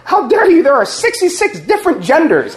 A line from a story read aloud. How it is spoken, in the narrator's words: she blurts out